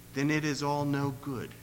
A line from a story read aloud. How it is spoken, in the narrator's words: whispered